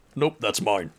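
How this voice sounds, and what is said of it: Deep character voice. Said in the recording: “deep voice”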